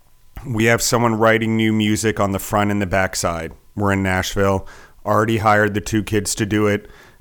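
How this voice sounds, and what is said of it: Slightly hoarse, fading voice. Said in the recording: “I'm losing my voice a little bit here and there.”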